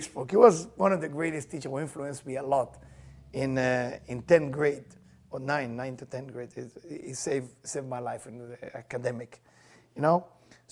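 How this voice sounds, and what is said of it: Speaks English with foreign accent. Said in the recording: “Am I with my accent, does it sound correctly? ... with my accent, it sounds the same”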